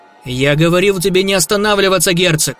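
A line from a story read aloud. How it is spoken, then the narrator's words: Barked. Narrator (Russian): рявкнул Кригер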